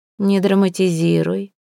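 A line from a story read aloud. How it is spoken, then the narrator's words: Cold old woman. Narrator (Russian): холодно отметила старуха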